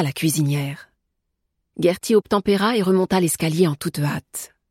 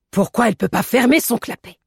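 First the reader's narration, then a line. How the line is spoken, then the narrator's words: Annoyed grumbling. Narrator (French): grogna la Brunnenmeier agacée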